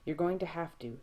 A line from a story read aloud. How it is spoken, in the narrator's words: Sam says